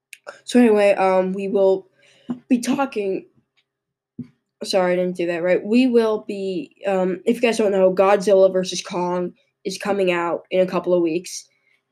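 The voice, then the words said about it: Hoarse, sick-sounding voice from a cold. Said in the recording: “Sorry if my voice sounds a little different. I'm a little sick... I got a cold. So my voice doesn't really work that well... I kind of lost it.”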